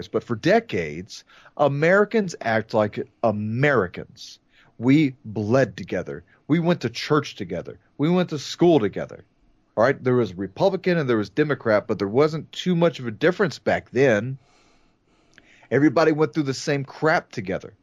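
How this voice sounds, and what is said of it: Raised, loud voice. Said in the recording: “sorry if I'm raising my voice,”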